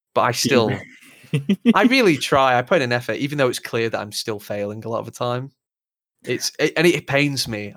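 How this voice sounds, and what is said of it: Lancashire English accent. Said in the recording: “some women find my accent attractive because they think it's manly and barbaric just because it's from fucking Lancashire”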